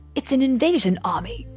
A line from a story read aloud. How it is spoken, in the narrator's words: Obi-Wan exclaimed